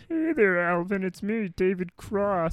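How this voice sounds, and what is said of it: Whiny imitated voice. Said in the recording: “He has that weird, like, ... whiny voice ... his voice is only whiny towards the end of it”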